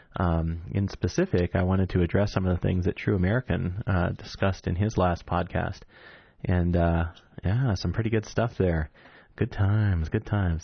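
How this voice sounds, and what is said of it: Calm, smooth NPR-style radio voice. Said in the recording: “I get this NPR voice going when I'm talking about meditation ... that can make me sound like I'm about to try and sell you a very nice brand of coffee”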